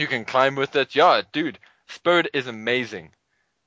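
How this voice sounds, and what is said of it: Usual voice. Nothing is said of it.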